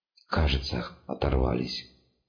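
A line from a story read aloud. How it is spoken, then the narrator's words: Breathless exhale. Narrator (Russian): выдохнул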